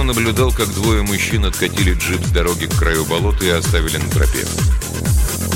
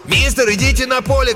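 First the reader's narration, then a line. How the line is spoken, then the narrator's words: Shouted. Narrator (Russian): крикнул один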